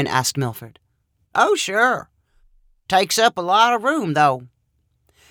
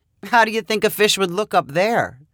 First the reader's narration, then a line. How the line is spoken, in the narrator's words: She asked with a chuckle